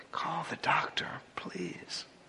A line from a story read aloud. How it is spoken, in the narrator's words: Bobby, the pastor, pleaded in an amazingly calm voice